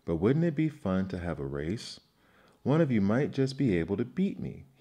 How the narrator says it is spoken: he added with a chuckle

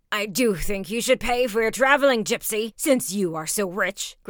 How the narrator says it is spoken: grunted the first archer

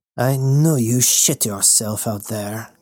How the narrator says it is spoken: Goethe scoffed

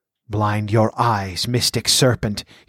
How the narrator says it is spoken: he chanted in a blood-freezing whisper

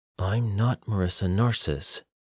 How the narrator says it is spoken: she said through gritted teeth

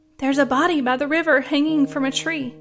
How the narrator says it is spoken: exclaimed

